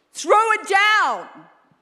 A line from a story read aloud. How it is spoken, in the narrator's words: yelled Jehu